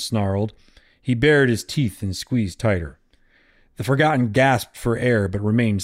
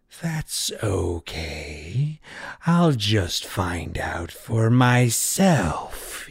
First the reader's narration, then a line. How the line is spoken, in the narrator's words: hissed